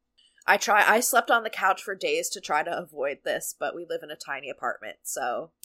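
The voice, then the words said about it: Congested, sickly-sounding voice. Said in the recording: “coming down with whatever cold my husband has ... my voice sounds painful to listen to ... you started that like so sickly ... I'm like so congested”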